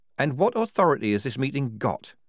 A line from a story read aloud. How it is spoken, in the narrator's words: said Polly coldly